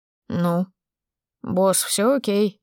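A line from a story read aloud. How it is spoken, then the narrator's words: Yawning drawl. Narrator (Russian): протянул Мирон и зевнул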